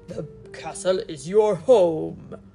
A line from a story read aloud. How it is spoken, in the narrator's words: said gruffly